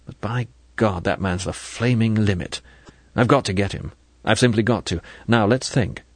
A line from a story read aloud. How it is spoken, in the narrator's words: He added bitterly